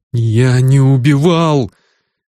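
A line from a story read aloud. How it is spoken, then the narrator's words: Sobbing. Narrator (Russian): Грисвелл всхлипнул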